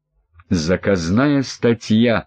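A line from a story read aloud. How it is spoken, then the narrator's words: Growled. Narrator (Russian): прорычал Андрей Михайлович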